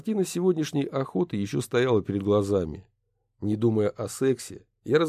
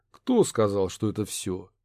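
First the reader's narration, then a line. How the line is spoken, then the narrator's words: Calm reply. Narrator (Russian): спокойно ответил я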